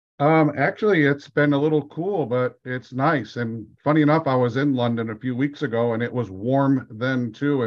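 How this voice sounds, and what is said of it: American accent. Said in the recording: “I'm detecting um, an accent from over the pond”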